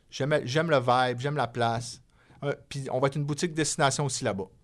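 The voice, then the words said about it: Strong Saguenay Quebec French accent. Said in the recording (French): “T'es-tu bilingue avec un accent du Saguenay? ... Probablement, oui. Ouais, mon accent est fort”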